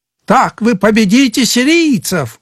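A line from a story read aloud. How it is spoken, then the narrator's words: Shouting. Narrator (Russian): кричал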